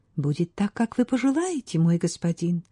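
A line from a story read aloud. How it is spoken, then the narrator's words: Quiet speech. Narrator (Russian): тихо сказала она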